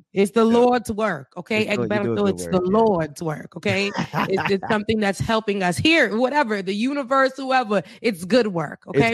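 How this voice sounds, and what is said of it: Speaks with a noticeable accent. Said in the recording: “I like that accent, man, whoever.”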